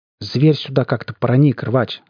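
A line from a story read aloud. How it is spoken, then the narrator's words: Calm voice. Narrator (Russian): сказал я ему спокойным голосом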